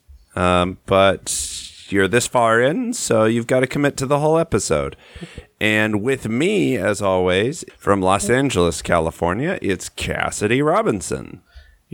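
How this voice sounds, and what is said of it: Congested, sniffly voice from cold. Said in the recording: “sick at home ... I have a little bit of a cold, a little bit of the sniffles. So if I sound weird”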